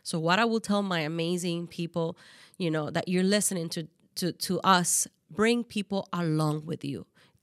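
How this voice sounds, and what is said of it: Speaks with a non-native accent. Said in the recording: “I got an accent.”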